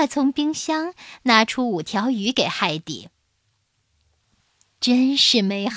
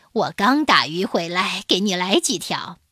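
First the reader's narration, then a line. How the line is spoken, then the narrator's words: Smiling. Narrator (Chinese): 亚历山大先生笑着说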